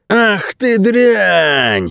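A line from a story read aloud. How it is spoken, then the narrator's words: Roaring big man. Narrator (Russian): взревел здоровяк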